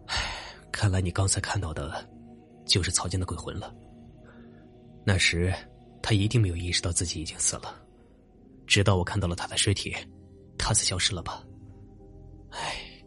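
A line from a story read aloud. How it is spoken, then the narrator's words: Sighing. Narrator (Chinese): 冯烈又叹了口气说道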